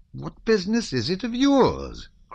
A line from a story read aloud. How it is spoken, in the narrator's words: cried the Count